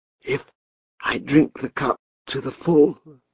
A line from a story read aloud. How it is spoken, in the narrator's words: a voice whispered